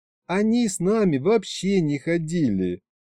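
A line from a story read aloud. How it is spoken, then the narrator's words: Sighing. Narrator (Russian): вздохнула Варя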